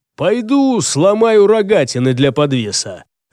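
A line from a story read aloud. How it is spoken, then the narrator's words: Menacing. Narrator (Russian): Джаргул и грозно добавил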